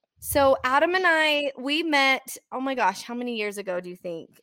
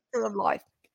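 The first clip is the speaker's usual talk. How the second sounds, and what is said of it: Australian accent. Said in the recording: “That's my that's my Aussie accent ... I'm impressed, really.”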